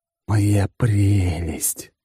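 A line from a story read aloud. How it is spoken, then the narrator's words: Ecstatic hiss. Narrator (Russian): прошипел я восторженно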